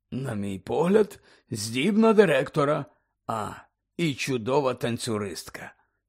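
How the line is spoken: Quiet. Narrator (Ukrainian): тихо промовив Дамблдор

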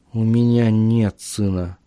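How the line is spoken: Mutter. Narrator (Russian): пробормотал Ричард

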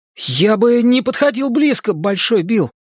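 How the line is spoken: Alarmed exclamation. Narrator (Russian): с тревогой воскликнул Ричи

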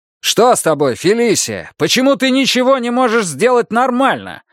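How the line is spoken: Yelling. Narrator (Russian): заорал он

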